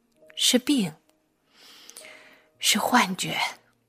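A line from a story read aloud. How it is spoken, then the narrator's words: Weak muttering. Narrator (Chinese): 她最后无力的坐下，喃喃自语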